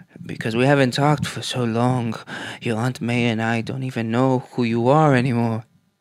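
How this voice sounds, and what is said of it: Exaggerated put-on accent. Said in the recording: “I don't know where that accent was going... it was borderline getting racy... he sounds like Megamind... When Megamind's Godfather.”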